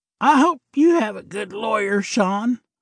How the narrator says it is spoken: Larry said with a raspy voice, as it was evident Sean's choking affected his vocal cords

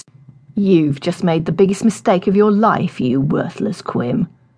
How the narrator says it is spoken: the leader snarled

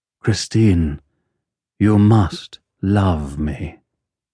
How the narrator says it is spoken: a man's voice in the dressing room, saying, in a curiously masterful voice

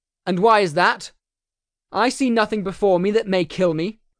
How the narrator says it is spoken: Belly was shouted up at the trees

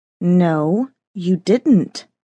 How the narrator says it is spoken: said through clenched teeth

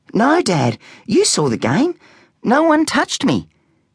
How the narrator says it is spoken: he said

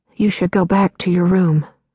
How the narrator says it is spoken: said

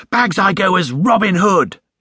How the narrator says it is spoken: exclaimed Jonathan

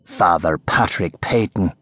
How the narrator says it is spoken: he hissed, as he added bitterly

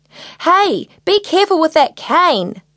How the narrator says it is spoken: shouted Ivy

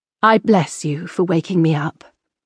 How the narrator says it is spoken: she said in a gentler voice

